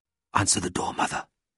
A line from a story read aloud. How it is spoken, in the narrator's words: whispered Leopold